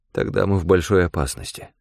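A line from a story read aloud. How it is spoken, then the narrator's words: Grim fearful mutter. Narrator (Russian): пробормотал я, вспомнив ночь кровавого ужаса, когда я нашел истерзанное тело старшего инспектора Грея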